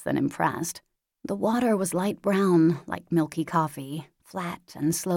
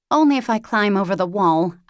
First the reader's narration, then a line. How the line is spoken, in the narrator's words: I snapped, in proper, pure English, because I am a proud American and an even prouder bitch